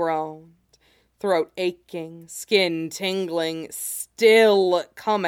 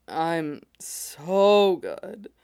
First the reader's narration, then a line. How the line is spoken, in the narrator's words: Cody slurred